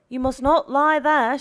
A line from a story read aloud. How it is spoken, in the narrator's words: shouted the watchman